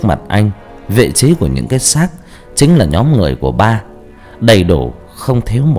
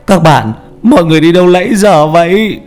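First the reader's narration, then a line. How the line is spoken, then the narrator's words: Joyful cry. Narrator (Vietnamese): Vũ mừng rỡ kêu lên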